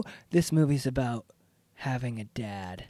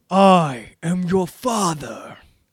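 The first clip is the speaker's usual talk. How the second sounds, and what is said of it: Darth Vader impression. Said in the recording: “that was a beautiful impression.”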